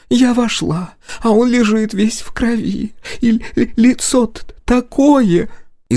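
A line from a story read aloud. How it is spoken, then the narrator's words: Sobbing. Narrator (Russian): Из ее весьма объемной груди вырвались рыдания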